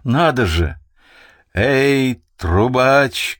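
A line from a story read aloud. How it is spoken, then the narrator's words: Booming loud shout. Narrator (Russian): крикнул он своим зычным голосом, чтобы его хорошо расслышали на флагманской галере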